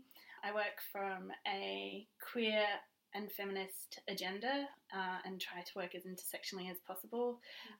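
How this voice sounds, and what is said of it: Australian accent. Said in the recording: “You have such an Australian accent.”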